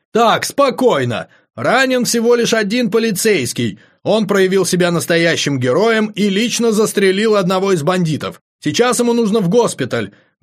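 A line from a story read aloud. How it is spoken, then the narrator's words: Loud shout. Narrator (Russian): громко прокричал Фрэнки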